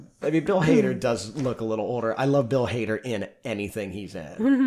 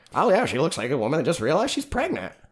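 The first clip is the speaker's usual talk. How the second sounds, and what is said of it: Imitates another person's voice. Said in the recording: “That's my Bill Hader. I'm really good at impression.”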